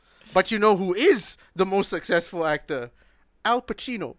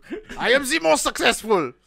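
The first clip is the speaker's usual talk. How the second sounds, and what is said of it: Put-on German accent. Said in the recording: “said in a German accent, it sounds like, whoa.”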